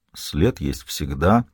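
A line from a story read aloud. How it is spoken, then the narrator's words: Muttering. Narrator (Russian): пробормотал Ищейка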